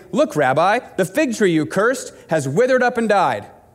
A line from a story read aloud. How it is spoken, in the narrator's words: Peter remembered what Jesus had said to the tree on the previous day and exclaimed